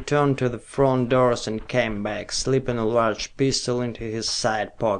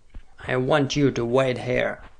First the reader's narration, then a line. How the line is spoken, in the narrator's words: he said